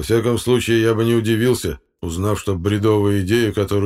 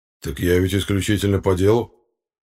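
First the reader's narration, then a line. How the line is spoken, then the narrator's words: Calm reply. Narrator (Russian): спокойно ответил Аббас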